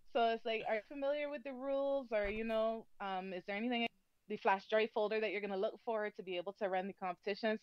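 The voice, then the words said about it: Speaker's own accent. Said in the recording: “loves your accent ... talking too quickly, especially with my accent”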